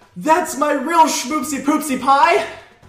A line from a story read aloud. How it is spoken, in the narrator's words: Barry ... he shouts